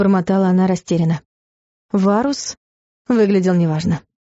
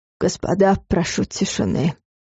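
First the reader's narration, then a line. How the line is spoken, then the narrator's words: Hoarse. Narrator (Russian): хрипло начал он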